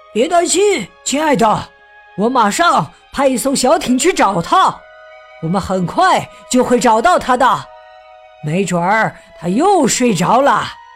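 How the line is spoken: Loud shout over phone. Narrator (Chinese): 巡逻员在电话那端大声喊着

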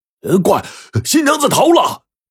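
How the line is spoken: Loud shout. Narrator (Chinese): 有人大声喊道

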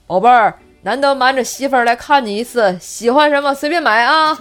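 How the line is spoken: Father's sudden loud speech. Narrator (Chinese): 老爸 突然 大声说

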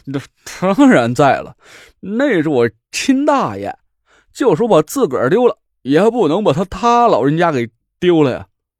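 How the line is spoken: Laughing. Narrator (Chinese): 胡磊笑了起来

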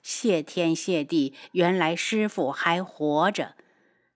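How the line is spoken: Relieved faint smile. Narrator (Chinese): 嘴角挂起一抹淡笑

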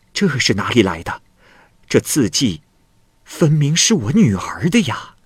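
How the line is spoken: Astonished exclamation. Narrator (Chinese): 不住的惊叹

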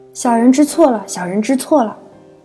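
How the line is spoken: Humble, fawning. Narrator (Chinese): 放低了姿态，谄媚道

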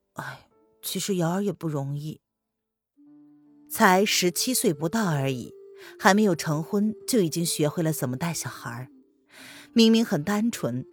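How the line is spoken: Sighing. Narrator (Chinese): 栗子叹了口气

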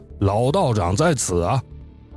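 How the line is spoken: Joking. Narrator (Chinese): 我还跟冯堂主开玩笑说

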